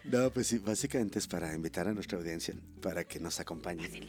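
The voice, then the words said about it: Hoarse, deeper-sounding voice. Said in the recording (Spanish): “Hoy ando afónico y traigo voz de hombre ... es la fonía que traigo”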